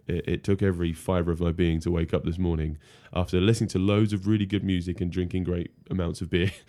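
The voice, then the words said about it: Rough, tired voice. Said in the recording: “I'm slightly hungover today, as you can probably hear from my voice”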